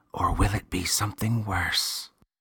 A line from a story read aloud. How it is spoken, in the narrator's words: The boy whispered